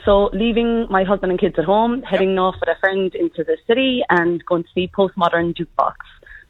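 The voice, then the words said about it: Irish accent. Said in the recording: “the Irish accent stays with me ... your accent's never going to go”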